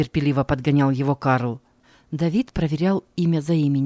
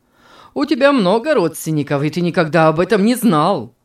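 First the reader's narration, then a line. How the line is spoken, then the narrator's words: Laughing. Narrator (Russian): засмеялся Карл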